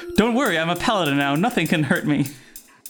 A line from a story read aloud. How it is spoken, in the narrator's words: Corin laughs and says